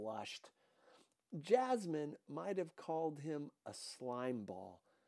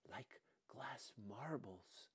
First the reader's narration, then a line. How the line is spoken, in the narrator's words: he whispered